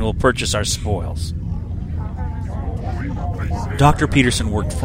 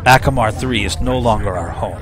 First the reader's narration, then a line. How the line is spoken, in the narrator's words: he growled